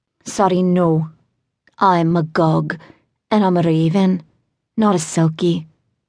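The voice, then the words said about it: Sing-song Welsh accent. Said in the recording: “in a sing-song accent I recognized as Welsh”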